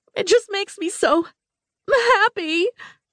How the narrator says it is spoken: Bonnie wailed

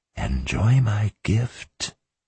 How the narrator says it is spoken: he whispered intimately

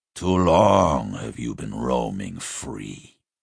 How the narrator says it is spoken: he hissed

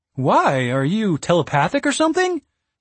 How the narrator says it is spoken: Strafgar laughed

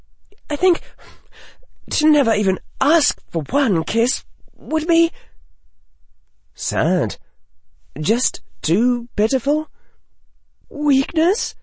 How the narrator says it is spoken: she said, her voice trembling

